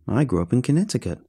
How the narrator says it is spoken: said

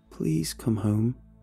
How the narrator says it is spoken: I whispered

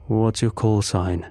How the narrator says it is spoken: he asked

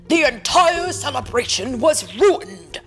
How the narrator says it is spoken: they yelled at Ariel

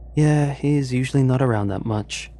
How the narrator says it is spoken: Elsie sighed

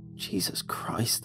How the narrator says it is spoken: groaned

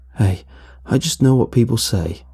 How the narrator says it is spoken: Chris quietly responded

